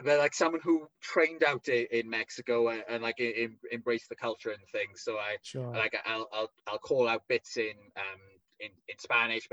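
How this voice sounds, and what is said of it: Thick Welsh accent. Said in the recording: “I'm probably not very Mexican sounding with my thick Welsh accent”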